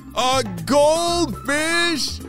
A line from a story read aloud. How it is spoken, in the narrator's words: The critters exclaimed in unison